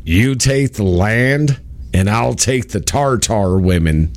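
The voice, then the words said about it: Imitates another person's voice. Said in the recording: “my dad used to do this impersonation... coming out of John Wayne's mouth”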